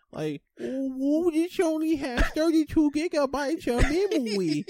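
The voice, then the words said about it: Baby voice. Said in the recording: “baby voice”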